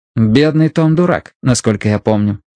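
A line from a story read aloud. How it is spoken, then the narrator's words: Plain. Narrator (Russian): сказал Мэтью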